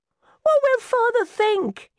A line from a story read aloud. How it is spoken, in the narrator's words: cried